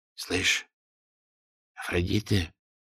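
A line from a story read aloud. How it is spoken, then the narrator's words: Whispered question. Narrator (Russian): шепотом спросил Гладышев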